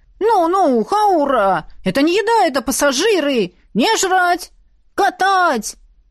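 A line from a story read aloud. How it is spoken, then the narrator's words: Boy shouting. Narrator (Russian): кричал парнишка прямо в сердитую морду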